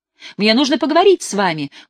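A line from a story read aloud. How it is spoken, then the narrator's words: Loud struggling shout. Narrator (Russian): громко крикнул я полицейскому, вырываясь из рук вцепившегося в меня негодяя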